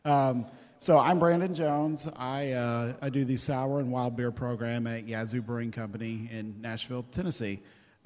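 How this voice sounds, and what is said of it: Hoarse, failing voice. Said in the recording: “I have started to lose my voice”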